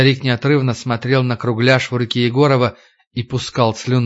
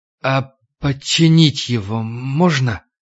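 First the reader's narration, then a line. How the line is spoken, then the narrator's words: Trembling voice. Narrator (Russian): Егоров дрожащим голосом спросил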